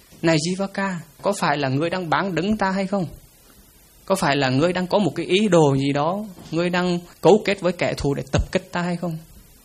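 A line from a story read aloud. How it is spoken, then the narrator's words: Terrified king speaking. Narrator (Vietnamese): vua A Xà Thế vô cùng sợ hãi, quay lại nói với Jivaka rằng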